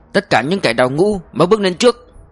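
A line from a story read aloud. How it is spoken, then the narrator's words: Yelled command. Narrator (Vietnamese): Mã Vinh thét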